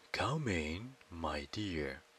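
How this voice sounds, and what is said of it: Deep character voice. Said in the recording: “What a deep voice you have!”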